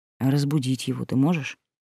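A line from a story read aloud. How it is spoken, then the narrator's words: Soft question. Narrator (Russian): спросил Василий мягко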